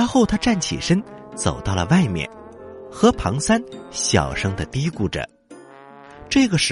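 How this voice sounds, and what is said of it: Usual voice. Nothing is said of it.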